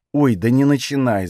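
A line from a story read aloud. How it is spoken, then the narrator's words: Groaning. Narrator (Russian): застонал Танис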